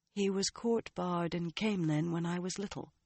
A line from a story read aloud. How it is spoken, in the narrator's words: she said quietly